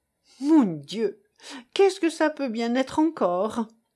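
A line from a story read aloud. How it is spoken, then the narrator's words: Groaning. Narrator (French): gémit la pauvre Estève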